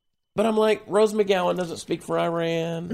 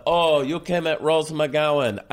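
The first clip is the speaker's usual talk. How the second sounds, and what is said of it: Put-on accent. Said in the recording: “I just went into a non-Farsi accent.”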